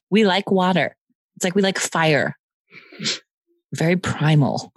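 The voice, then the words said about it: Caveman voice. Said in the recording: “I don't know what accent that was. ... What was that, Romanian? ... That was my caveman accent.”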